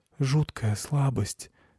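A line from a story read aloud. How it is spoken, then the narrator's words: Barely audible. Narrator (Russian): сказала она еле слышно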